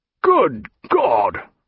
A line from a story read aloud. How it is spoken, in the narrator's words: cried Jack